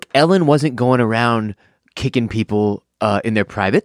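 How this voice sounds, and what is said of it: Usual voice. Nothing is said of it.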